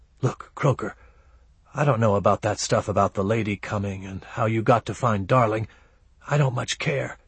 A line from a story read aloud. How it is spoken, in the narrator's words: He whispered